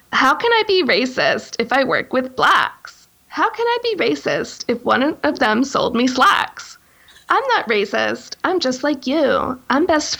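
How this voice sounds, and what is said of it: Put-on white girl voice. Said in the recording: “I'll read it in my white girl voice.”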